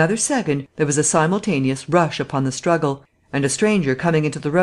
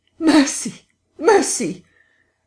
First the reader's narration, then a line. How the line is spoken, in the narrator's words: died down swiftly to a sound like choking